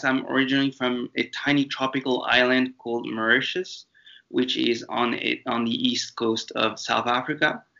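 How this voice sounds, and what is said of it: English with French intonations. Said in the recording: “this little accent of mine that you'll hear throughout this podcast is because I was raised in France ... you can hear some French intonations in my accent”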